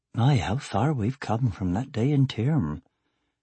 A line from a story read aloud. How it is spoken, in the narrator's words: Angela murmured